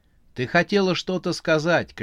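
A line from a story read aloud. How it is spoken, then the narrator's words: Shouting over train noise. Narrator (Russian): крикнул Макс, стараясь перекричать поезд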